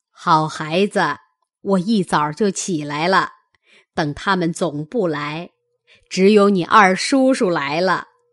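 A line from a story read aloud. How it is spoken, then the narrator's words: Laughing. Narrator (Chinese): 贾母笑着道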